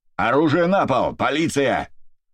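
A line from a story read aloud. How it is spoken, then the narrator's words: Shout. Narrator (Russian): прокричал Дорофеев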